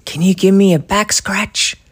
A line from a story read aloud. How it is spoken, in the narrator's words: Daddy whispered